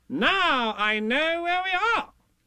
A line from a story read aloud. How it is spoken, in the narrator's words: Rabbit said triumphantly